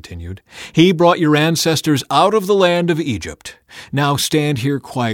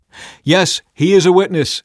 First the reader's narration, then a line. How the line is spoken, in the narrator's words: they replied